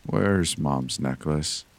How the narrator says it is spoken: I said slowly

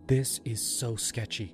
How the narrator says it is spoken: Mia whispered to me

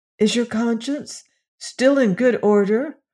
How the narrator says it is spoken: asked Dorothy anxiously

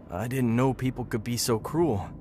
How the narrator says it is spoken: he said, his voice trembling

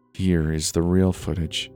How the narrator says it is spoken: he murmured

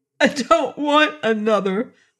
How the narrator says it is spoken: wailed the young man

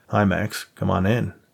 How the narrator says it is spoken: Nate offered sarcastically

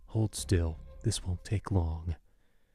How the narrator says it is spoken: The one who held me whispered in my ear

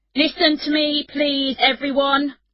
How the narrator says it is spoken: shouted

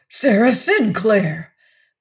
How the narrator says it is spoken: Pennifold gasped

